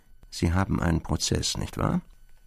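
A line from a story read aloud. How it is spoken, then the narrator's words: Quiet. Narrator (German): sagte leise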